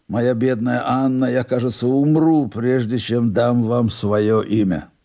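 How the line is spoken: Mumbling. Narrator (Russian): Он бормотал

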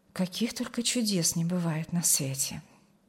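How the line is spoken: Quiet, overcome with emotion. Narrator (Russian): Не сдержавшись под натиском эмоций, негромко промолвила Алевтина

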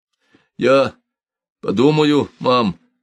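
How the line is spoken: Trembling voice. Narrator (Russian): дрожащим голосом произнес он

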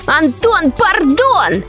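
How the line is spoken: Shouting. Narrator (Russian): кричал Лёшка

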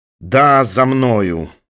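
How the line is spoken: Gloomy objection. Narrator (Russian): мрачно возразил Пегасов

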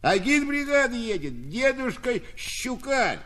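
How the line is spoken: Cheerful shout. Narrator (Russian): С незавершенного прикладка сена Прянишников весело прокричал

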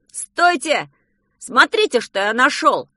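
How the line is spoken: Sudden shout. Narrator (Russian): Вдруг закричал Петя

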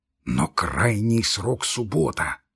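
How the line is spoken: Impatient trembling whisper. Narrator (Russian): прошептал Лаевский, дрожа от нетерпения

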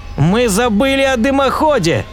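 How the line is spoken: Shouting. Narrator (Russian): закричал профессор Кин

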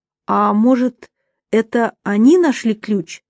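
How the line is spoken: Plain. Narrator (Russian): спросила Камила

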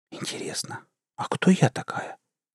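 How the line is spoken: Whispering to herself. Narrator (Russian): прошептала словно про себя

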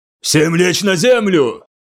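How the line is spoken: Shouted. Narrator (Russian): крикнул Венбруин

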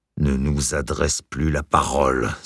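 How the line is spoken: Hissed. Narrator (French): siffla leur mère

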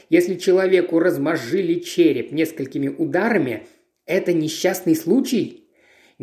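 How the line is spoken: Calm, unruffled reply. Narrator (Russian): Ничуть не тронутый горячностью Спенса, Пуаро спокойно ответил

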